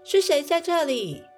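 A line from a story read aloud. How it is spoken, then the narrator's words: Loud scolding. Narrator (Chinese): 阿贝尔大声呵斥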